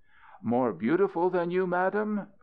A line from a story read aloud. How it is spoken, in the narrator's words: Balthasar cried as he fell at the feet of Balkis